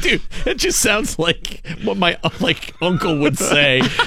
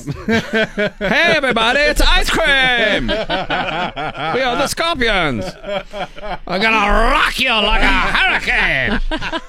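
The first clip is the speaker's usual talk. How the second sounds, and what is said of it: Imitates another person's voice. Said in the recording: “That's a very good impression of him.”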